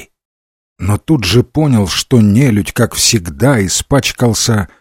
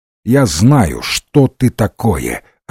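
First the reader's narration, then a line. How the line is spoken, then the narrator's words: Plain. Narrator (Russian): ответил Ренсом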